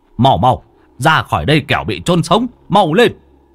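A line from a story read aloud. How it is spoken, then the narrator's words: Urgent shout. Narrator (Vietnamese): Ông Hoạch hét lên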